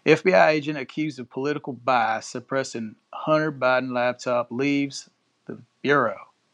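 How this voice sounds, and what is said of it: Reading in a put-on accent. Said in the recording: “I'm gonna read this one in a little accent,”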